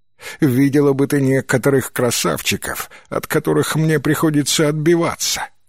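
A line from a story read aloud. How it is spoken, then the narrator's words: Laughing. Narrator (Russian): Кэт рассмеялась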